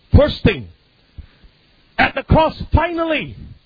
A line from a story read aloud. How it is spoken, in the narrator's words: he cried with a loud voice